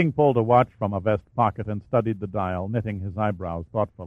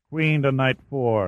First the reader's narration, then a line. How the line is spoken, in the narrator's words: grunted